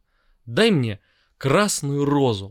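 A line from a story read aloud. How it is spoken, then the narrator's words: Exclaiming. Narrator (Russian): воскликнул он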